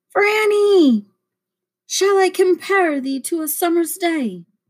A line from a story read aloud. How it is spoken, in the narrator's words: Wolcott's loud voice shouts at me